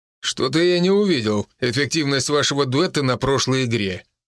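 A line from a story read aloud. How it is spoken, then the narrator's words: Coach's scoffing snort. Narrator (Russian): хмыкнул тренер, поставив Гордеева на место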